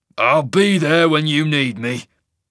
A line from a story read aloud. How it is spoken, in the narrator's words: Jerick rasped